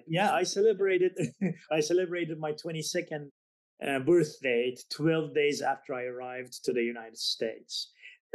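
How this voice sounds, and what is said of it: Non-native English accent, slightly Southern. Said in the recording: “you can tell from my accent, I wasn't born in the U.S. ... that kind of sounds like a Miami accent ... Even have a southernish, I mean, a kind of Texas type”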